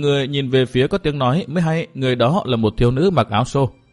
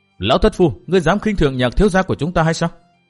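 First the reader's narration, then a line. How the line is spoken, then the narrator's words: Shrill loud shout. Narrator (Vietnamese): giọng lanh lảnh quát lớn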